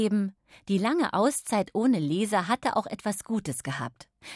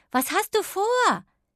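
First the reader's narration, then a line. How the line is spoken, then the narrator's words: Calling after. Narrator (German): rief sie ihm nach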